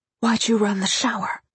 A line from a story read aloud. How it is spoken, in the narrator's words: whispered